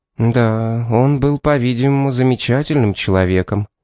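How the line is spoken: Soft, gentle. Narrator (Russian): мягко сказала Зенобия

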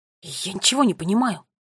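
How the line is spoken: Whisper. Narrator (Russian): прошептал Финн

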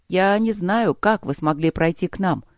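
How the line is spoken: Plain. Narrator (Russian): сказала Адекра-хранительница

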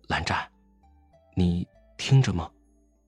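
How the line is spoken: Low voice. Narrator (Chinese): 魏无羡低声道

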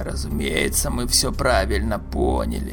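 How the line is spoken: Creaky bass interjection. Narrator (Russian): вмешался брат Калькман своим скрипучим басом

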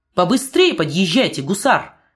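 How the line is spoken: Commanding shout. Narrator (Russian): повелительным тоном крикнул офицер

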